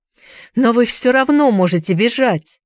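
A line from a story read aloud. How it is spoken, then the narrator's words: Desperate shout. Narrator (Russian): в отчаянии закричал он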